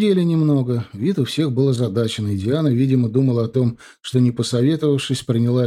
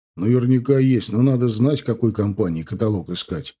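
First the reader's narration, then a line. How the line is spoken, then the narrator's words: Plain. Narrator (Russian): ответил зять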